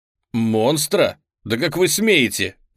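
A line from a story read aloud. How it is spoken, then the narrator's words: Prince snapping back. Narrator (Russian): огрызнулся принц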